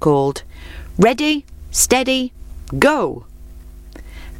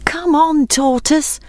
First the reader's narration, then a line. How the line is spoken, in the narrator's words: called his friends anxiously